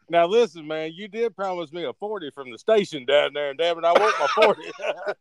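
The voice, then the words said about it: Put-on white guy voice. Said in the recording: “keep talking like a white guy ... making my throat”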